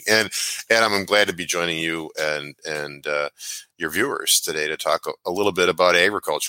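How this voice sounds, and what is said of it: Slightly hoarse voice. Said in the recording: “I'm a little hoarse just because I was yelling”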